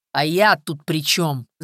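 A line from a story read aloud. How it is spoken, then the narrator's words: Angry question. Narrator (Russian): зло спросил Виктор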